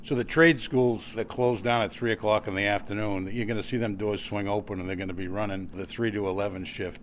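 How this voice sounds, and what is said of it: Boston accent. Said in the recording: “the Boston accent”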